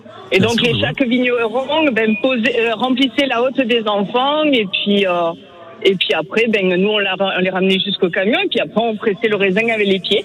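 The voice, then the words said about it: Slight southern French accent. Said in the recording (French): “Il y a un petit accent du sud”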